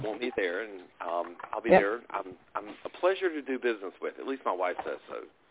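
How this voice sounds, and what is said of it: Drawling accent. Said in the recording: “I love your drawl.”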